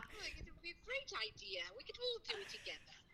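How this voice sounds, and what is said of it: Put-on English accent, done well. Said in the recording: “do the accent. You did it perfect. That, like, ... was just doing her English accent. My mom's really good with accents. ... She sounds like a fairy godmother.”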